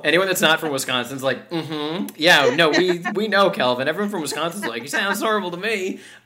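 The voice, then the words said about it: Wisconsin accent. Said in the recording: “that accent, I'm from Wisconsin ... Yeah, you can hear it now.”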